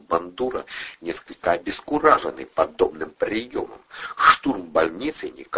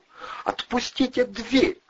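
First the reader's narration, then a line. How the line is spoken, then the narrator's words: Shrill, thin, furious. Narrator (Russian): взвизгнула медсестра тоненьким, полным ярости голоском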